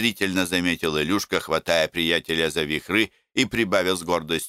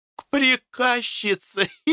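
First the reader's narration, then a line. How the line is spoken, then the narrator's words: Muffled giggle. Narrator (Russian): хихикнул Пашка, закрывая рот рукой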